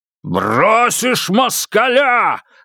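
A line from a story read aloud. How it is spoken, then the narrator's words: Shouting. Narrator (Russian): закричал пан Богдан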